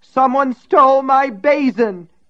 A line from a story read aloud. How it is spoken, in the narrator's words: wailed again